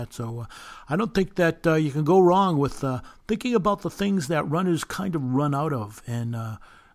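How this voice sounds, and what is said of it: Massachusetts accent. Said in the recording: “you have a Massachusetts accent. That's charming.”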